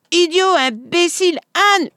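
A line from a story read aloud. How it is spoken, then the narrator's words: Shrieking insults. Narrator (French): hurla Madame Schmiel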